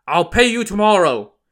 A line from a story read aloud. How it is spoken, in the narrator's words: Luda shouted to the owner of the restaurant